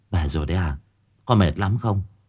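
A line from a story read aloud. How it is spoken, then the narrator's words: Gentle smiling question. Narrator (Vietnamese): mẹ khẽ cười, hỏi han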